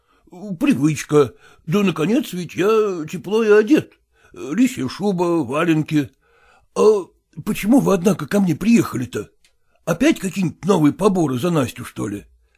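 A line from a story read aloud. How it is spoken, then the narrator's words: Quiet question. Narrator (Russian): тихо спросил Селезенкин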